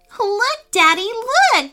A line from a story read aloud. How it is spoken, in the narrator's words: squealed Hannah with delight